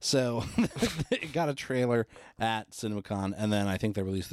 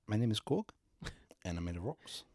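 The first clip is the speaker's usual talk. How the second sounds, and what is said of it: Put-on New Zealand accent. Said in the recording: “our Kiwi impression”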